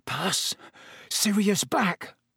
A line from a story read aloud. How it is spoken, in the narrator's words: said Ron faintly